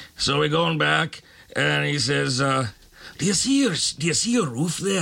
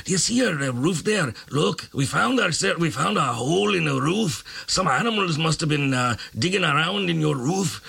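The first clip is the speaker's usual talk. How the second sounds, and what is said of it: Put-on foreign accent. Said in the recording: “I wasn't going to do the accent, but I'm going to do it.”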